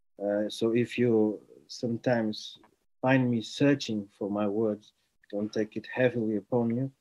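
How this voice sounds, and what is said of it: Portuguese accent. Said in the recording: “I am from Portugal ... You might notice it from my accent.”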